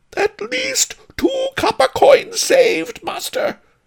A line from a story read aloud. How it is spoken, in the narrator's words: the cook cried